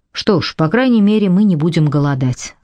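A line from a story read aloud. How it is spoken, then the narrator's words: Plain. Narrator (Russian): сказал Дэвид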